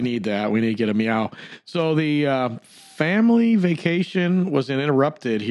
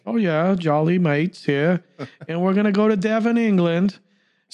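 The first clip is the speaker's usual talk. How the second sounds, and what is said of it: Bad put-on English accent. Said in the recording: “Sorry, our terrible, terrible English accent. ... Terrible,”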